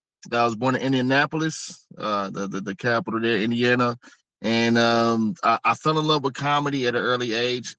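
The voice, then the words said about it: Hip hop inflected American speech. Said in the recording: “a lot of people think I'm from New York because of my dialect, the way I talk ... What you're hearing is not New York. You're hearing hip hop. You're hearing the culture and the tone.”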